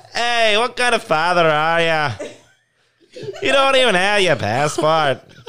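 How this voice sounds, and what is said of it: Poor put-on Irish accent, drifting. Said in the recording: “I guess they're Irish in Canada now ... my accents are horrible because I try to do one and I just instantly go to a completely different region of the world”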